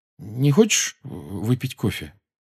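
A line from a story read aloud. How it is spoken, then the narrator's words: Uncertain question. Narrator (Russian): Джоу неуверенно спросила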